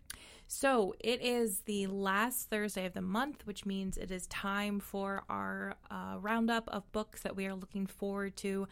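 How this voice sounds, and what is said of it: Slightly odd, cold-affected voice. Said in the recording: “I am sort of recovering from a cold, so if I sound a little weird”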